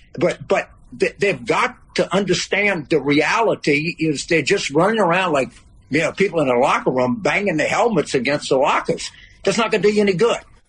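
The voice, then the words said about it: Louisiana Cajun accent. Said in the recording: “James Carville, New Orleans accent, Louisiana, Cajun accent.”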